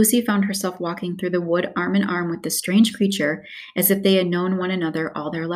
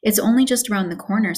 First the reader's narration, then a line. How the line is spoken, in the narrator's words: said the fawn